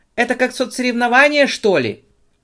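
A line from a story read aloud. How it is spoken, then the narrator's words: Shouted by plump woman. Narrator (Russian): выкрикнула полноватая женщина в белом халате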